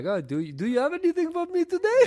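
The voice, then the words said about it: Poor put-on Middle Eastern accent. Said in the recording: “It wasn't Scandinavian. It was definitely Middle Eastern. Although I feel like that is the worst Middle Eastern impression.”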